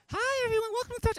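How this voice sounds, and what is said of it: High-pitched imitated greeter voice. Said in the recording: “she is our heavenly high voice”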